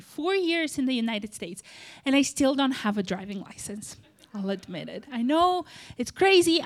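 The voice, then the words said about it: Moldovan accent. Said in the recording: “if you're not sure what that accent is from, it's from Moldova”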